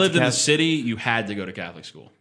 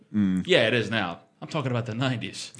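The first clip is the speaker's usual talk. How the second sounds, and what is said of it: Put-on older uncle-style voice. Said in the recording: “You just put on your uncle voice? ... Yeah, that's uncle voice.”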